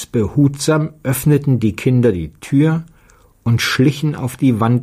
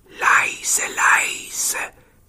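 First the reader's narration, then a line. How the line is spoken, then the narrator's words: Whisper. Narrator (German): flüsterte Petja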